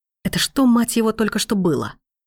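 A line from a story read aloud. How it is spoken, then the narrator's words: Growling through teeth. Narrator (Russian): Рычит сквозь зубы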